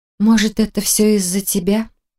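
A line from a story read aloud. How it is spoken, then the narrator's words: Sighed. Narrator (Russian): вздохнула девушка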